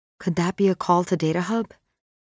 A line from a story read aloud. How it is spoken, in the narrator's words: Maxine whispers to Tom